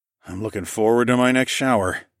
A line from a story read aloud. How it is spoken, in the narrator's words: I groaned